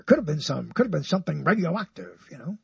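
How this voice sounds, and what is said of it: Poor imitation of another person's voice. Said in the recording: “a bad imitation of Walter Cronkite, isn't it? Because my voice is so high.”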